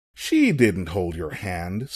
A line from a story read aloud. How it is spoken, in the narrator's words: scoffed